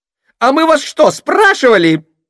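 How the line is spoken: Shrill indignant outburst. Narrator (Russian): возмутилась визгливая

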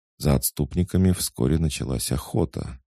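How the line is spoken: Calm priest's remark. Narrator (Russian): спокойно добавил жрец

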